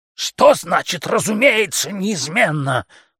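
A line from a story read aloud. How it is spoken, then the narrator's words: Yelling. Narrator (Russian): заорал он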